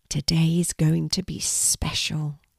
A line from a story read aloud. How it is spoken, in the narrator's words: Kelti whispered with a feeling of excitement